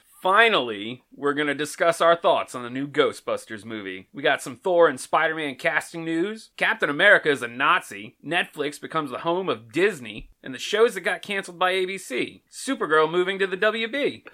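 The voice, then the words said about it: Announcer-style radio voice. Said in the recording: “in a radio voice”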